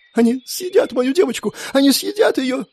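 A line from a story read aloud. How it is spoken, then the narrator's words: Whimpering. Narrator (Russian): скулила Ребекка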